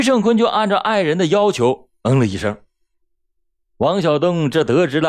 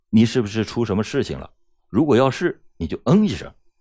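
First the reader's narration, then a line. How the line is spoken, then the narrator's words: Soft question. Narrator (Chinese): 轻声的问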